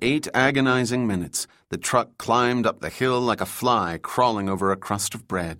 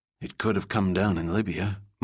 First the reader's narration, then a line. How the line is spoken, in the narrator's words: Mike muttered